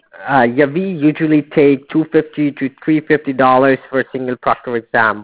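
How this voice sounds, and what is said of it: Thick accent. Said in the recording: “It's hard for me to understand your accent. Like, you know, you have a thick accent.”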